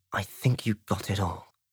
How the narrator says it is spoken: he muttered to himself, frowning

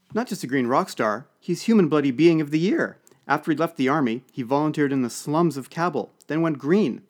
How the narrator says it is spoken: said another

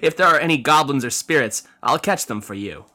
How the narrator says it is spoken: Yin replied with a laugh

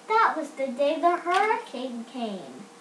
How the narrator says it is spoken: cried Lizzie

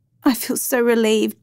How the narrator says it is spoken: Joan said tearfully

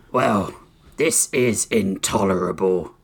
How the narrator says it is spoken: Oryx growled

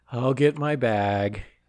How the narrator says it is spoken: just sadly

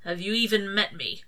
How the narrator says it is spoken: Crowley sighed and gentled his tone

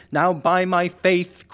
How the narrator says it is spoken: cried the peddler trim

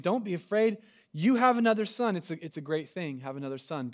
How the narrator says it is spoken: After a very hard delivery, the midwife finally exclaimed

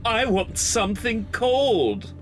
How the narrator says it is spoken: I whined

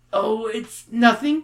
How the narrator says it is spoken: Bruce stammers

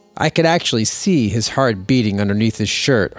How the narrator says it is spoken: Hart says

